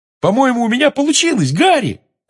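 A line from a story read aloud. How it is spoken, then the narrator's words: Excited yell. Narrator (Russian): завопил Симус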